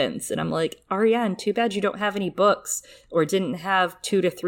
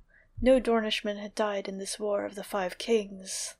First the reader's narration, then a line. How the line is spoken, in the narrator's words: the prince murmured softly